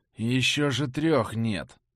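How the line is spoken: Grumbling. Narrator (Russian): пробурчал я

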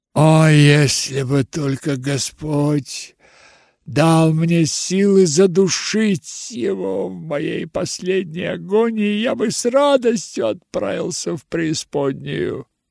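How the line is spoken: Irritated groan. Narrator (Russian): простонал с раздражением Хиндли

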